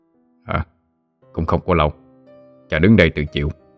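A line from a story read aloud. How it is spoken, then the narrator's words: Deep hoarse, smiling. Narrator (Vietnamese): Long Bò Cạp nhẹ mỉm cười, nói với giọng trầm khàn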